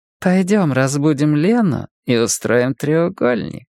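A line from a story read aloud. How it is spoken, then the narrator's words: Woman purring. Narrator (Russian): промурлыкала женщина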